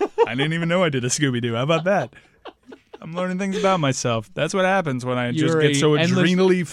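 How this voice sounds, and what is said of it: Usual voice. Nothing is said of it.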